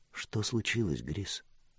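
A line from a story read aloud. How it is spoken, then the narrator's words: Quiet question. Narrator (Russian): тихо спросила Мира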